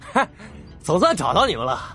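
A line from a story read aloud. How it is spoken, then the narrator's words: Young man, loud laughing voice. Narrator (Chinese): 年轻人，他看着任小素他们朗声笑道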